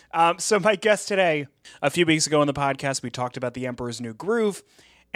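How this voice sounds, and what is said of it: Hoarse voice. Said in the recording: “as you can hear, my voice is a little bit hoarse.”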